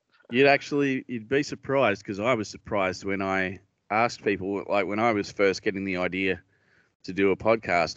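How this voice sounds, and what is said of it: Australian accent. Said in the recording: “I'm Australian”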